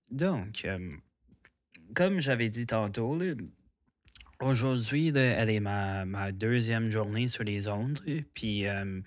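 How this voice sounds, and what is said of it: Anglophone accent in French. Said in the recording (French): “comme vous entendez dans mon français ou peut-être dans mon accent, là, que le français n'est pas ma langue première ... je suis quand même anglophone”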